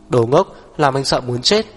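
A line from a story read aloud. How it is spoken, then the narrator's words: Trembling reproachful whisper. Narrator (Vietnamese): Hắc Viêm Triệt không đành lòng, trách móc nặng nề, run run thì thào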